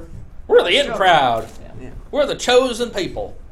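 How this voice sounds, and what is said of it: Usual voice. Nothing is said of it.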